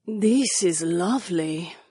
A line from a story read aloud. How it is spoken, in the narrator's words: Jessamine sighed